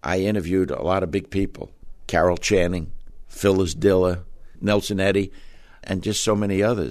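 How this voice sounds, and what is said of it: Slight Brooklyn accent. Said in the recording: “You still have a bit of that Brooklyn accent.”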